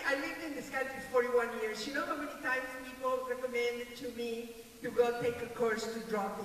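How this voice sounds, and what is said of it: Speaks with a non-native accent. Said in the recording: “I have an accent, have you noticed?”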